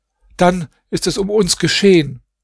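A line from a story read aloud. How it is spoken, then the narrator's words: Calling out. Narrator (German): Nuam rief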